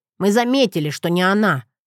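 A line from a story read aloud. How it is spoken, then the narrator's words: Snort. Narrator (Russian): фыркнул Джет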